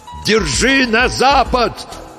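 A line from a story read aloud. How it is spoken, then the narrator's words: Farewell shout. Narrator (Russian): крикнул на прощание физик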